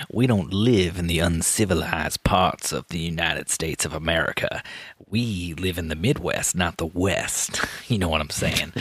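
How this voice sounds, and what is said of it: Put-on upper-class old English accent. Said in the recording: “what kind of accent that is ... Is it supposed to be like an upper class kind of old Englishman that lost his accent on the way over?”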